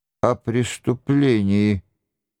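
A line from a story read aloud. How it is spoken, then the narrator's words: Muffled mutter. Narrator (Russian): глухо пробормотал Нострадамус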